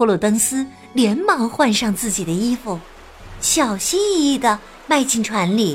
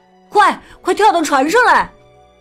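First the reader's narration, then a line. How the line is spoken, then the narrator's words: Shouting. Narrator (Chinese): 雅克喊道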